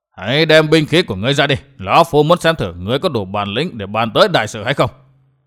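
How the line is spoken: Old man shouting. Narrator (Vietnamese): Lão già đầu trọc quát

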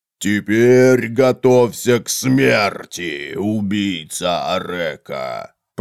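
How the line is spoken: Inhumanly deep booming bass. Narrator (Russian): прогудел низкий бас, недоступного никому из людей диапазона

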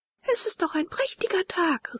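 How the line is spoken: Joyful calling out. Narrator (German): rief Leonore und hüpfte vor Freuden

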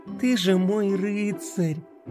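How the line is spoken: Tender. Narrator (Russian): Нежно произнесла Пинки

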